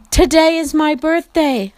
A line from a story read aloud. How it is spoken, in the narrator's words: Meg called out